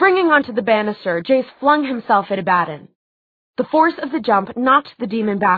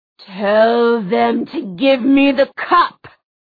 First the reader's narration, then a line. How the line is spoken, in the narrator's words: Abaddon snarled